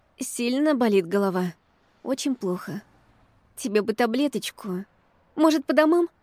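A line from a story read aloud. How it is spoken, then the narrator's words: Sad question. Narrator (Russian): спросила я грустно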